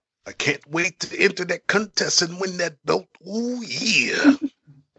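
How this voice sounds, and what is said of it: Gravelly wrestler impression. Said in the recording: “Giving the best Macho Man impression right there.”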